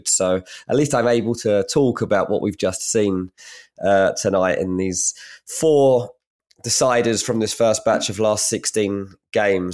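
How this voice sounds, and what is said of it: Croaky, congested voice. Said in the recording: “if I sound a bit croaky, ... or a bit congested, it's because I am a little bit of both”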